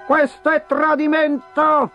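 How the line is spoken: Shouting. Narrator (Italian): gridava

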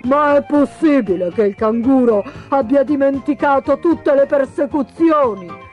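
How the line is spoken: Exclaimed. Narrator (Italian): esclamò il pellicano

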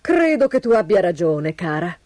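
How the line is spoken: Sigh. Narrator (Italian): sospirò il signor Robivecchi

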